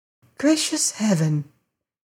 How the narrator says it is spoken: she gasped

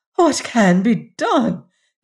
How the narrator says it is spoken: exclaimed Lady Maria

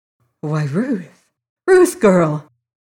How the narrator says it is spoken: he exclaimed

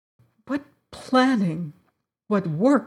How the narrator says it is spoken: she sobbed

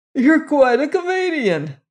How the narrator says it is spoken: Reagan wheezed

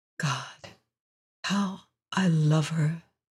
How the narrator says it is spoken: he whispered softly

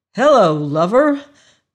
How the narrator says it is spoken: cried Dr

